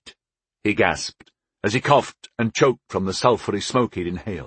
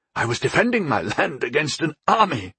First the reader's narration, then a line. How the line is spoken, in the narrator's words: he gasped, struggling to get to his feet